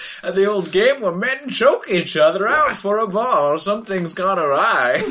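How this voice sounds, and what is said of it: Usual voice. Nothing is said of it.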